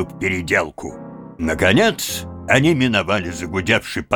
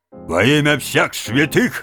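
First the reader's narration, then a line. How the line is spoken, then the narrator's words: Policeman barking. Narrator (Russian): рявкнул на стражника полицейский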